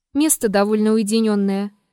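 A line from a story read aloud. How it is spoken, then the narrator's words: Vague, noncommittal tone. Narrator (Russian): неопределенным тоном сказал Триродов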